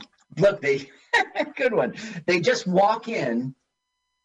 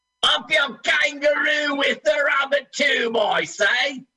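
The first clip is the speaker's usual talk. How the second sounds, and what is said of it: Failed Australian accent, sounds Cockney. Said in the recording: “I keep doing Cockney. I can't do Australian. ... you gave a bad impression.”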